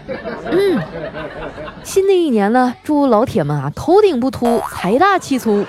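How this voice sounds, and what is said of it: Put-on Northeastern Chinese dialect. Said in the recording (Chinese): “我先用东北话给大家送个祝福”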